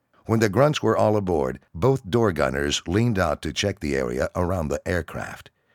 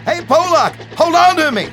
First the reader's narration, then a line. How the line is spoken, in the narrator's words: Bill hollered in a panic above the noise of the engines and wind